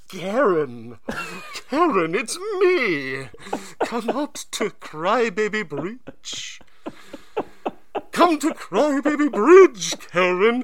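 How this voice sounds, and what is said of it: Goat man mimicking someone's voice. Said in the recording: “the goat man mimicking voices”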